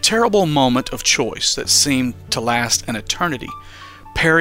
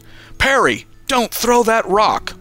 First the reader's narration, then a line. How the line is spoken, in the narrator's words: Uncle Sheo yelled